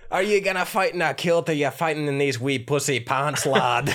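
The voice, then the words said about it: Put-on Scottish accent. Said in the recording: “I have too much fun with the accent. I can't stop. ... an actual Scotsman”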